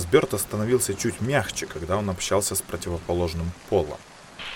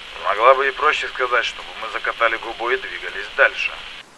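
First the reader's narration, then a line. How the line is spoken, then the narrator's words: Man's amused snort. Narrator (Russian): хмыкнул мужчина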